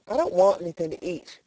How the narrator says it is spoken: replied Elnora

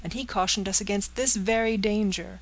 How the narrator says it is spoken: cried Miss Peyton

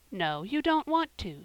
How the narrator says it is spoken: said Mrs

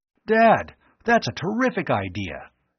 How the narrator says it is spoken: he exclaimed

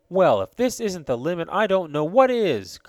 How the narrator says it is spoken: cried

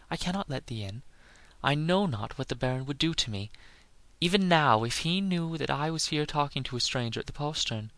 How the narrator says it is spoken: said the lass in a frightened voice

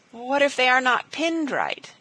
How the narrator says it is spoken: quavered Elnora

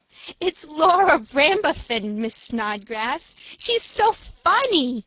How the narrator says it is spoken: spluttered the girl

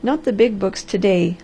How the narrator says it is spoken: laughed the Harvester

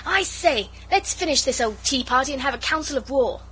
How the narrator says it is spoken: Noel interrupted and cried out

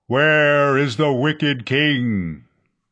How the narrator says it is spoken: a voice thundered

